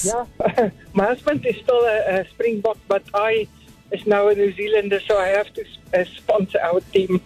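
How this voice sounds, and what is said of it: South African accent. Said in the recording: “Are you South African, I'm guessing, by your accent?”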